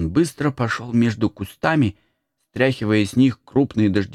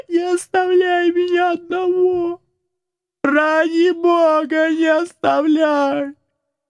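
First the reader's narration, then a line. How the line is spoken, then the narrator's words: Desperate shout. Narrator (Russian): закричал отчаянным голосом Макс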